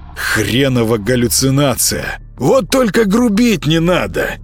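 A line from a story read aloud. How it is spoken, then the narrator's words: Hoarse wheeze. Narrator (Russian): прохрипел кот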